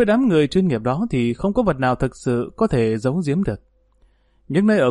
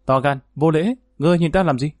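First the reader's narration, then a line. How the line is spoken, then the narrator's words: Angry woman shouting. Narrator (Vietnamese): nàng bất giác tức giận quát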